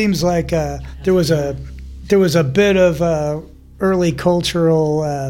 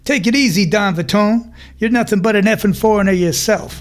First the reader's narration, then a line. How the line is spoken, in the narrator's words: Costello snaps back